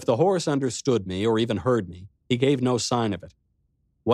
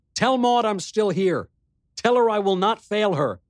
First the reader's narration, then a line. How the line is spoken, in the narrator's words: On an impulse, called out